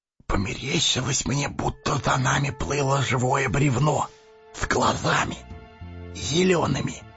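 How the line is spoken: Whisper. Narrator (Russian): шепнул Сэмми засыпавшему Фродо

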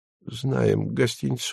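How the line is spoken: Quiet speech. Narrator (Russian): Моисей Наумович тихонько произнес

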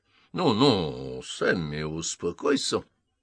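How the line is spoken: Conciliatory tone. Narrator (Russian): сказал Дункан примиряющим тоном

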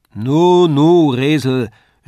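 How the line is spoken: Calling from across the room. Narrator (German): rief Herr Tändler von der anderen Wand

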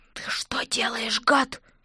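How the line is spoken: Hissed. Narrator (Russian): прошипела я

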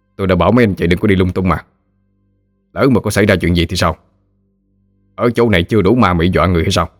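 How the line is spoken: Stern. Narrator (Vietnamese): nghiêm nghị nói

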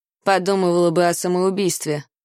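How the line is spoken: Gloomy. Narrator (Russian): мрачно кивнул Дикон

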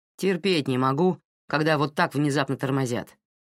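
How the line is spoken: Grumbling. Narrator (Russian): проворчал парень своему спутнику

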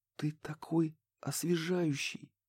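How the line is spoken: Breathless exhale. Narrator (Russian): выдохнула, наконец, она

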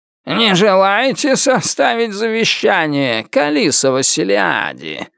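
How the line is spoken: Ominous creaky voice. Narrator (Russian): Зловеще проскрипел он

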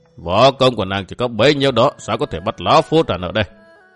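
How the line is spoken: Smiling. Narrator (Vietnamese): Hà Hoàn mỉm cười nói

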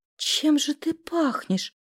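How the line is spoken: Whispered. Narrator (Russian): прошептала я

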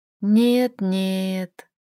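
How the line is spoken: Quiet woman's voice. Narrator (Russian): тихо произнесла она

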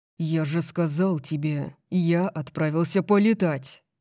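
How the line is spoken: Growled. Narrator (Russian): прорычал Дариус

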